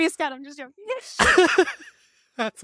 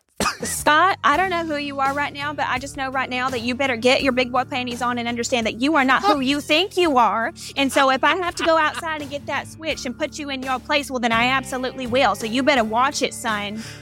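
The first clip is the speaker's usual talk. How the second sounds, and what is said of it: Stern scolding mom voice. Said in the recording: “in your best mom voice”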